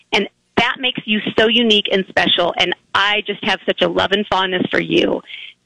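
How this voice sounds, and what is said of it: Strained, fading hoarse voice. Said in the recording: “my voice is going.”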